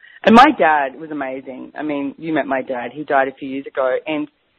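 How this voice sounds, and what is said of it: Usual voice. Nothing is said of it.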